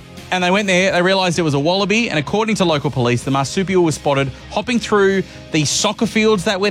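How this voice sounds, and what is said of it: Usual voice. Nothing is said of it.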